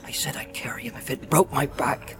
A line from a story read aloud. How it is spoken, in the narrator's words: he muttered